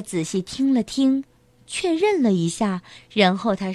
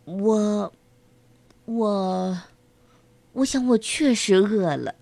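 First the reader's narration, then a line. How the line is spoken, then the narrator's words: Mumbling. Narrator (Chinese): 卢皮奥德嘟囔道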